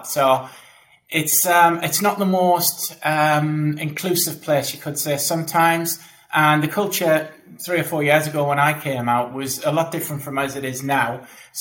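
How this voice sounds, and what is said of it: Northeast English accent. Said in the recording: “you might know from the accent, I'm from the Northeast”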